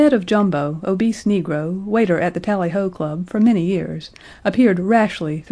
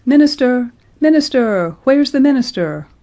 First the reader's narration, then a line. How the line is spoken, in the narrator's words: cried voices out of the revel